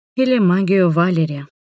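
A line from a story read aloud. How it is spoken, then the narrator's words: Sighing. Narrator (Russian): вздохнула я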